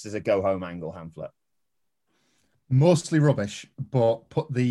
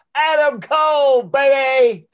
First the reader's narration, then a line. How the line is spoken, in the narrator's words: he yells